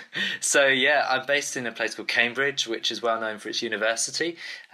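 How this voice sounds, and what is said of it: English accent. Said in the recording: “as you can tell, I'm from the UK. My English accent kind of gives me away”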